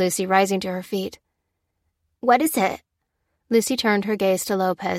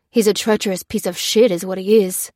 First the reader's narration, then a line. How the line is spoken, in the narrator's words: snarled Lopez, the first flickers of his old self rekindled with the news